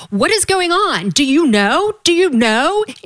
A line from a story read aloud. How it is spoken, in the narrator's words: I yelled